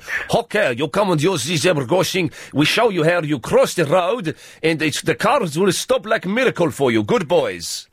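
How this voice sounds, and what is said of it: Put-on foreign accent, possibly Greek. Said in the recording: “I don't know what accent that is. It's probably really offensive... That's Greek.”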